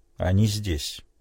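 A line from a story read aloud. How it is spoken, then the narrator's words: Plain. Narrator (Russian): сказал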